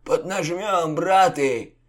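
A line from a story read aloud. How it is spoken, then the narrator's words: Hoarse rasp. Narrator (Russian): захрипел угрим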